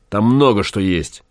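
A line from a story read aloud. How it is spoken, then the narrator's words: Angry. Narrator (Russian): сказал Гай зло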